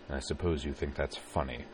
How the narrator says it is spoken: He sighed, looked up at the gloomy sky, and muttered

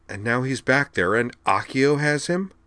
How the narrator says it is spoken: Wakaba cried

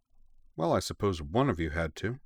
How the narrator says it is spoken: said June dryly

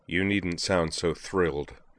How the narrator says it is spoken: said Kyuichi Sionji dryly

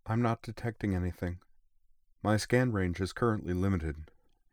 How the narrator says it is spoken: she added, a very faintly apologetic tone creeping into her voice

